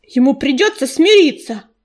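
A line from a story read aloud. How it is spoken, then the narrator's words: Barked. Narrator (Russian): рявкнул ежевика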